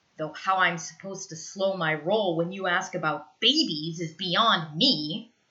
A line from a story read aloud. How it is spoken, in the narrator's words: he snarls